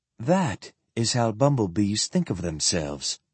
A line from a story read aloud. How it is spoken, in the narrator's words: Sophronia said quite calmly